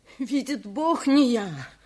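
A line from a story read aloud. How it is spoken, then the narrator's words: Sobbing repetition. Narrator (Russian): повторял, всхлипывая, бедняк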